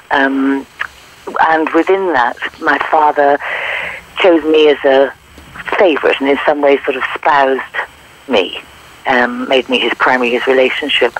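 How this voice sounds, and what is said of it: English accent. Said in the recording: “I was born in England, as you can hear from my accent”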